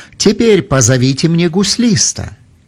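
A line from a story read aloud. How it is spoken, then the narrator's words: Exclaimed. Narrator (Russian): Божий человек Елисей воскликнул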